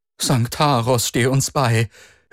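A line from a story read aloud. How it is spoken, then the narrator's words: Pleading. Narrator (German): den Steuermann am Höhenruder flehen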